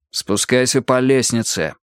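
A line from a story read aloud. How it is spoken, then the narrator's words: Calm, reassuring. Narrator (Russian): еще раз сказал он Дэниелу как можно более спокойно, чтобы не напугать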